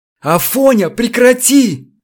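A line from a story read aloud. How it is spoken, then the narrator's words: Shouted. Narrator (Russian): закричал Чертослепов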